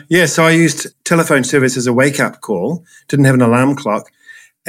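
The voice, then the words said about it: New Zealand accent. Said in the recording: “the Kiwi accent”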